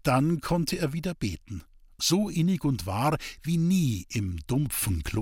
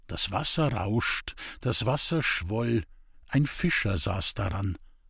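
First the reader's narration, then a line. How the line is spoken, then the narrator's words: Quiet solemn recitation. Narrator (German): rezitierte leise und feierlich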